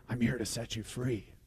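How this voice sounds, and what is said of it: A slightly creepy voice. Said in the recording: “in a little creepier voice”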